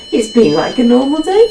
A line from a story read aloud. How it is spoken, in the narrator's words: chuckled Pete